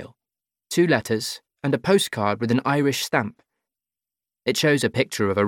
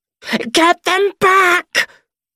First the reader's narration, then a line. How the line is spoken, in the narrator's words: She screams, frantic, desperate